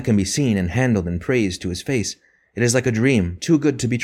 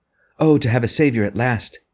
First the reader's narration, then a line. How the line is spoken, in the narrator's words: cried Francis